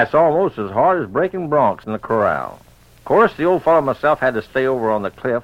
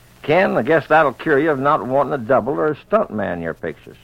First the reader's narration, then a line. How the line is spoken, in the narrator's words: our director, Jack Otis, laughingly said